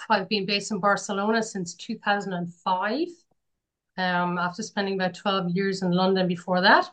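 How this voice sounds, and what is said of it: Irish accent. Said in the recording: “I'm originally from Ireland, so you can detect from my accent”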